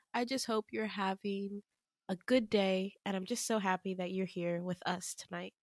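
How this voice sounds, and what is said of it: Tired, exhausted-sounding voice. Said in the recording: “my voice sounds so exhausted”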